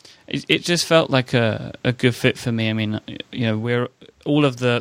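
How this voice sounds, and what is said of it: British accent. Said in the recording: “that accent of yours ... British accents”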